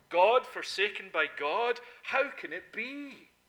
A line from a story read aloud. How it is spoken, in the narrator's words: he exclaimed